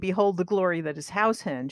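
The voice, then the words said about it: Very dramatic declaiming voice. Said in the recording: “in a very dramatic voice”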